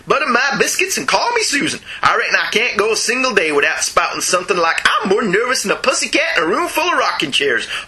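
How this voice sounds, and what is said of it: Bad put-on Southern US accent. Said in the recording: “That was a truly awful Southern accent.”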